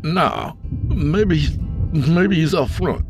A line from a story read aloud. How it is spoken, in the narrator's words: Isaac slurred